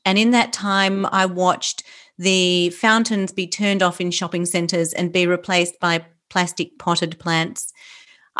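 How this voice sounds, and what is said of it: Australian accent. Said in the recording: “I'm Australian, obviously, you can tell by my accent”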